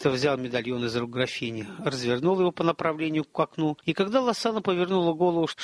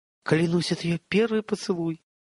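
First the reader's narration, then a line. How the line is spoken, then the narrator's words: Inner exclamation. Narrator (Russian): мысленно воскликнул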